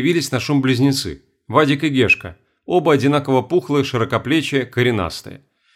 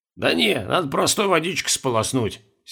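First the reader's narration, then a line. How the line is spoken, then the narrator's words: Hoarse advice. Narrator (Russian): сипло посоветовал Петрович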